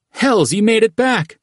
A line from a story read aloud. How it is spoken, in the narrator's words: Thresher called out